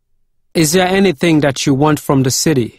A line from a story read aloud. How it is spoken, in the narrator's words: asked